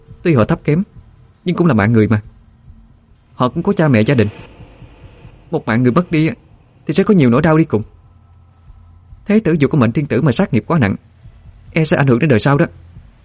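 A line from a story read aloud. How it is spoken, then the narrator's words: Angry. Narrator (Vietnamese): Hòa Hương liền tức giận nói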